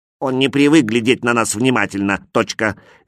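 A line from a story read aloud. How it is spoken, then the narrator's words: Angry small man. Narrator (Russian): сердито сказал другой человечек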